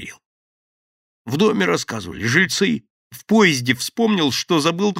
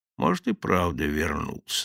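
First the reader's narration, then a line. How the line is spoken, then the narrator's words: Thoughtful. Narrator (Russian): задумчиво проговорил Василий Иванович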